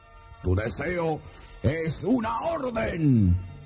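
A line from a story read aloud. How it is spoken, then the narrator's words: Booming roar. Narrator (Spanish): rugió el genio con una voz que retumbó en toda la caverna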